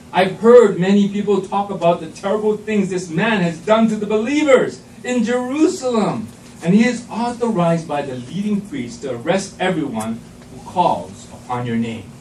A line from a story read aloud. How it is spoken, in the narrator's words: exclaimed Ananias